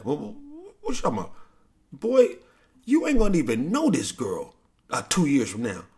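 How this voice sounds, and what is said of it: Impression of speaker's father. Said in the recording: “This is my impression of my dad.”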